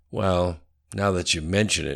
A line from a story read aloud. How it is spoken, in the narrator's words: chuckled slightly